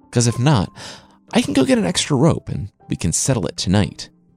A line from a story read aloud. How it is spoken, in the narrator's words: the hippo pleaded